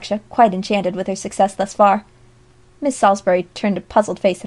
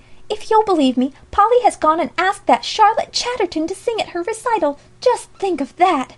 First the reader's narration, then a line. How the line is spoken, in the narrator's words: exclaimed Alexia, quite gone at the enormity of such a blunder